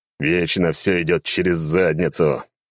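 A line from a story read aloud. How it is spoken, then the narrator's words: Groaning. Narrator (Russian): простонал я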